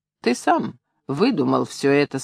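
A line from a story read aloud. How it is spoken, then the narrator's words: Calm remark. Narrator (Russian): спокойно заметил Ромась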